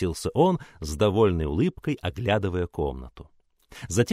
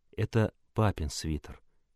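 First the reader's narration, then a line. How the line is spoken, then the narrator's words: Quiet. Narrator (Russian): тихо сказал Даркус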